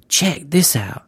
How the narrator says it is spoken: Freak hissed, interrupting them

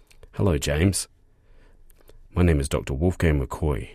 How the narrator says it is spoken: he says

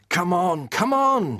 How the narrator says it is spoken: shouted Dan

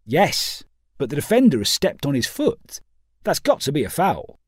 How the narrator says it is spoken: responded Pawson sharply

